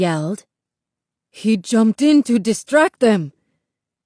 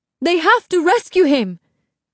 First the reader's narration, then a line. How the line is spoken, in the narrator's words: Amara cried